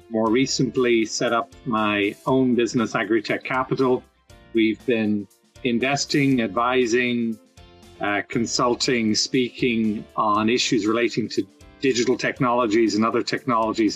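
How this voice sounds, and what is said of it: Slight Irish accent. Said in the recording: “Some will detect a little accent, which is not from North Carolina. So grew up in Ireland”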